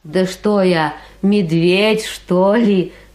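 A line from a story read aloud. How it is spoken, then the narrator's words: Snorting, moose. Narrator (Russian): фыркнул лось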